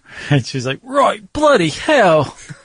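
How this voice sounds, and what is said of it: Put-on British accent. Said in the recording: “how good my British accent is ... cartoonish and stereotypical”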